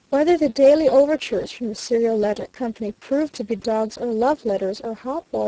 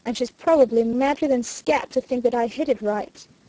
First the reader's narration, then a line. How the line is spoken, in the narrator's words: growled Stanton